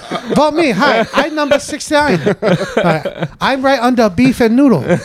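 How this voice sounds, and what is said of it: Put-on Chinese accent. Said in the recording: “full on Chinese whatever accent ... very good. It's very good.”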